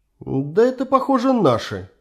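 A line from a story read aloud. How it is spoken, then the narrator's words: Uncertain. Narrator (Russian): неуверенно сказал красавчик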